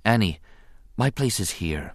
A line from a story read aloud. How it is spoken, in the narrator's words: she said quietly